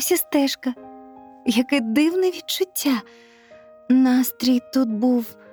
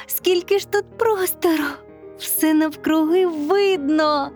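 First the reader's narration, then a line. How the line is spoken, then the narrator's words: Joyful exclamation. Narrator (Ukrainian): Радісно вигукнула Катя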